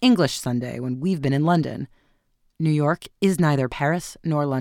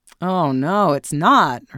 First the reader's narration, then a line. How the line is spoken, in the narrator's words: her son groaned